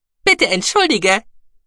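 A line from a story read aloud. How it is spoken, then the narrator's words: Cheerful squeak. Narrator (German): piepste Guki fröhlich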